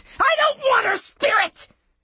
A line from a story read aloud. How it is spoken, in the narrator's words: she screamed